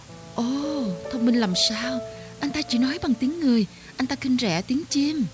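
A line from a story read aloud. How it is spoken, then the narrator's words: Birds, hasty exclaim. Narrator (Vietnamese): Mấy chị chim chì vôi vội thốt lên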